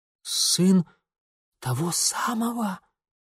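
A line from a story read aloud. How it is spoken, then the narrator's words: Hissing whisper. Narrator (Russian): свистящим шепотом переспросил его младший брат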